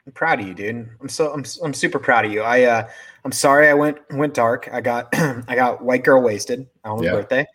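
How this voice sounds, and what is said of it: Slightly hoarse voice. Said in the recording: “My voice is a little hoarse. ... Was screaming my head off.”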